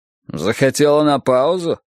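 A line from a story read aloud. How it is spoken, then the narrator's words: Menacing question. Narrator (Russian): спросил я грозно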